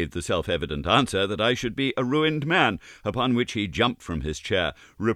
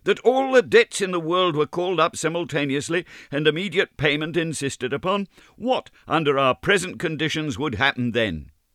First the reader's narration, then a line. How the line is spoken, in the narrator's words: cried with feeble violence